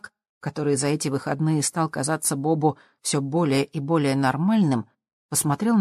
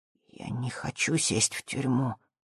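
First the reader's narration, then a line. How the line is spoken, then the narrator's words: Almost a whisper. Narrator (Russian): промолвил Зак почти шепотом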